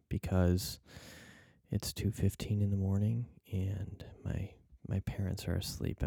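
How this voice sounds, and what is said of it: Whispering. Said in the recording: “I'm whispering ... hence the whispering”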